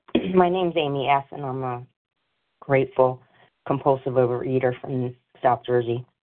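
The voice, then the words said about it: Sick voice, breaking up. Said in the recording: “I'm sick right now. Pardon if my voice is breaking up a little bit.”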